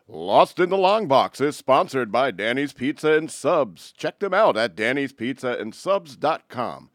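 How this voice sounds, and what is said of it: Announcer voice. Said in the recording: “Can I use my announcer voice? ... Use your announcer voice.”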